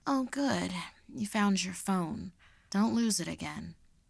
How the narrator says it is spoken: she sleepily remarked

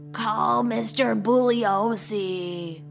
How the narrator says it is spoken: Before she passed out, she croaked

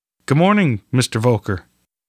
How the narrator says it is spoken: Osborne replied

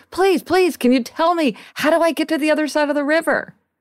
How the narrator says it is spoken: the traveler yells again

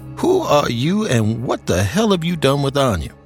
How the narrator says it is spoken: She laughed

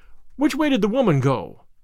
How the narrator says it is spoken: I cried

